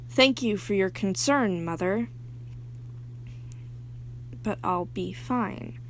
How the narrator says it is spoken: May, in a robotic tone, says

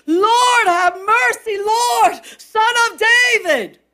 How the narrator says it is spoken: their cry out to the Lord, as their expectancy, as their faith was screaming out

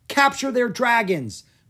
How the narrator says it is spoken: Queen Amaru yelled, calling for the attack

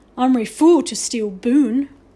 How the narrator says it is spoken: roared Little Bear, laughing

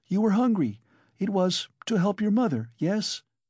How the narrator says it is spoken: suddenly she cried

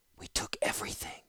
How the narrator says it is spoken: Ratapi whispered, softly, but in Koilos a whisper carried like a shout

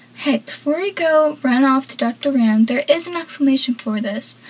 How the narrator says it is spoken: Pacey nervously says

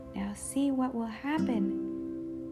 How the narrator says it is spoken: they cried

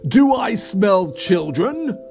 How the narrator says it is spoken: roared the troll

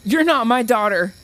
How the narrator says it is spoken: the woman cried over the oven timer

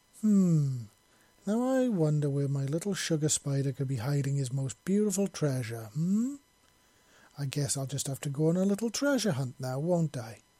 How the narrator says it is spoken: Wisp purred playfully

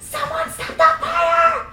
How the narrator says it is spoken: I screamed as it burned me

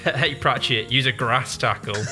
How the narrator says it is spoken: Felix shouts for Pratchett to get up close and shouts

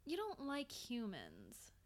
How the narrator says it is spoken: said softly

